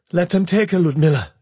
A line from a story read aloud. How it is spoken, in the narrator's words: she said urgently